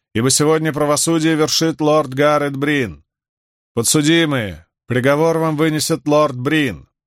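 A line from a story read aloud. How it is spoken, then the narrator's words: Loud. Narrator (Russian): громко сказала женщина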